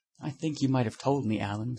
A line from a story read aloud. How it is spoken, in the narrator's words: said Huey sulkily